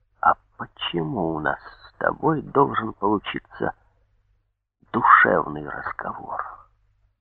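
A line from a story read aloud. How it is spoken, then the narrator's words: Quiet near-whisper question. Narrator (Russian): тихо спросил комиссар, и от этого тихого голоса, почти шепота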